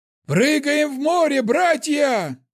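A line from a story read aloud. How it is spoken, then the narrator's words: Shout. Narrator (Russian): закричал он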